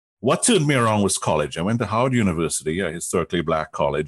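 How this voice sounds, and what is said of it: Trinidadian accent. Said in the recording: “as you can tell from the accent,... in Trinidad”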